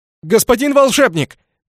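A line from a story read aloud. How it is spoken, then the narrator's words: Shout. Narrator (Russian): крикнул он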